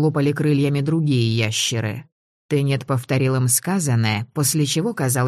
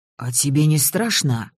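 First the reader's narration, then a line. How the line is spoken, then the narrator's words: Whispered question. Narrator (Russian): шепотом спросил ее Даху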